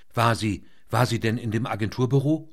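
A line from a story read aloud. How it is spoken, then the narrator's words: Stuttering. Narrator (German): stotterte der Chefreporter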